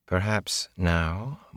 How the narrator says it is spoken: Moraine said quietly

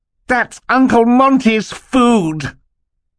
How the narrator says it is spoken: Klaus cried out suddenly, his face contorted in anger

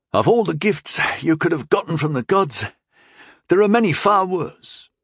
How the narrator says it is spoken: Tyndall pointed out, still gasping for air

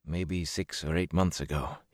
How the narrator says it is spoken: he muttered

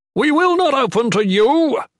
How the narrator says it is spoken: Warlord Jarius shouted confidently from the walls above the gate

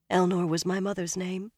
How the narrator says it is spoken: she said softly

